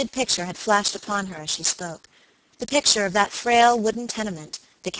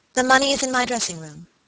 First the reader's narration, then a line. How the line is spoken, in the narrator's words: she said